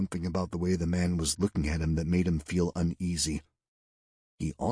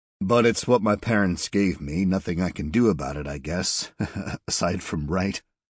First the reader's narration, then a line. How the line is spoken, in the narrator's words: said, laughing nervously